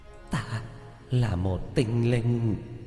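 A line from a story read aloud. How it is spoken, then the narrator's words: Trembling ghostly voice. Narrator (Vietnamese): Quỷ ảnh run rẩy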